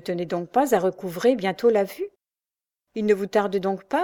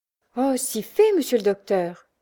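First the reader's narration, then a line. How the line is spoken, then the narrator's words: Exclaiming. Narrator (French): s'exclamait Louise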